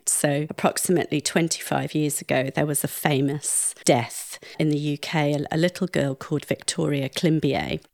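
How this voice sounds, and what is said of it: Posh plummy British accent. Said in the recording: “my posh plummy accent”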